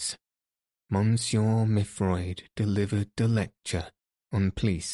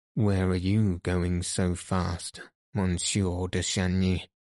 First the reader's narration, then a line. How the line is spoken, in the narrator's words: asked a voice